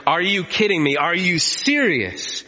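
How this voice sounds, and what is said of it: Raised, exasperated voice. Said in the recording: “I raised my voice. ... I raised my voice.”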